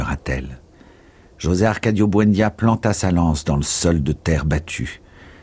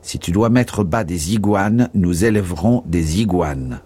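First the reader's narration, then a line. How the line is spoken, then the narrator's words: Plain reply. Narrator (French): répondit-il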